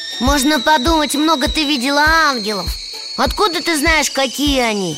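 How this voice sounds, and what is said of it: Usual voice. Nothing is said of it.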